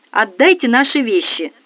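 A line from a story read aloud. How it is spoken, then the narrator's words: Angry. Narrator (Russian): сердито произнесла незнакомка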